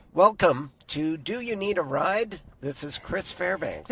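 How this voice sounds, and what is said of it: Congested, stuffy allergy voice. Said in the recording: “I sound like a dusty cowboy off in a field... has allergies... snot ASMR type of stuff into your microphone”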